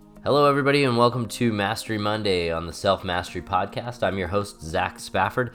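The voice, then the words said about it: Congested voice from a cold. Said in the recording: “Can you tell that I have a cold? ... I'm recording this with a little bit of a cold, so you'll hear that in my voice today.”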